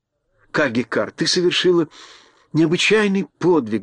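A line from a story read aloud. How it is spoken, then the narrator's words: Fervent exclamation. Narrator (Russian): горячо воскликнула Элли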